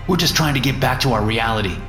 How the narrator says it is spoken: says

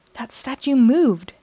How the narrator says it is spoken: June exclaims

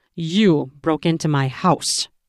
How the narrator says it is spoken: I growled into her ear

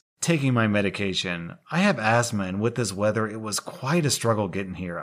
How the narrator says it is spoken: I replied

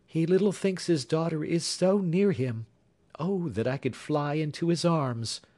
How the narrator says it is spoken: replied Jenny, sighing

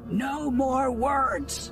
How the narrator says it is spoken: Kitar yelled

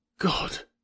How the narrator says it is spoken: whispered Clayton in a horrified tone

